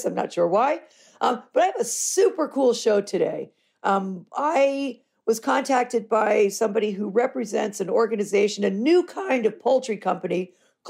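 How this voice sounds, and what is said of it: Hoarse voice. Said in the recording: “suffering from a little laryngitis.”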